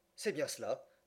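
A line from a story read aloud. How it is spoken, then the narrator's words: Murmuring. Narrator (French): murmura Passepartout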